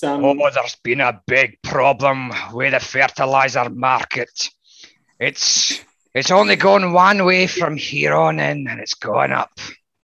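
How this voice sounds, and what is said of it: Exaggerated Scottish accent. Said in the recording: “a Scotch accent ... I might need to dial up ... I could dial up a bit”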